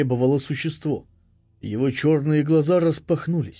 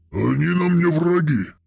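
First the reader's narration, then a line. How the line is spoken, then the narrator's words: Barking. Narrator (Russian): рявкнул Вознесенный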